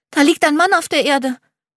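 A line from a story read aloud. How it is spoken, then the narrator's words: Excited. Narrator (German): sagt aufgeregt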